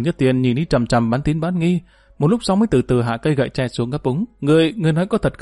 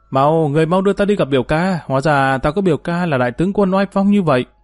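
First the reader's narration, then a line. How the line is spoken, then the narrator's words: Cried out joyfully. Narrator (Vietnamese): reo lên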